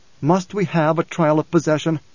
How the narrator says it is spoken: Leto said, and there was pleading in his voice

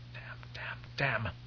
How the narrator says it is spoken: Taraza muttered

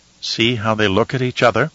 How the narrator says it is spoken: sadly

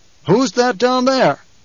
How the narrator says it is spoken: the Duke barked

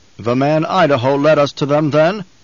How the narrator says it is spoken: the Baron asked

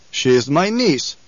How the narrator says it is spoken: Stilgar said

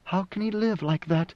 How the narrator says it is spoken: Siona whispered

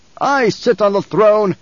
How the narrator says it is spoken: he barked

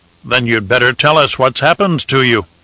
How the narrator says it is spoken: Paulus said

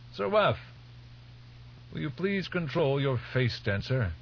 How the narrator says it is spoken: One of the priests, old Albertus, called out

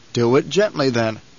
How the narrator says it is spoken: the Duke said

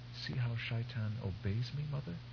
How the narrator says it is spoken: Her voice little more than a whisper, Shiana said

